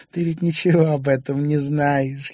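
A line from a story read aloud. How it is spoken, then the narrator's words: Giggling. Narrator (Russian): хихикнула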